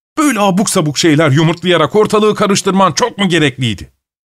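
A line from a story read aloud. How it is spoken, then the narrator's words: Shouting. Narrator (Turkish): diye bağırdı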